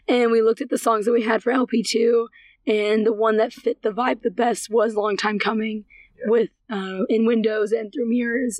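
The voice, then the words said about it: Hoarse, fading voice. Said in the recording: “my voice is progressively going and going and going.”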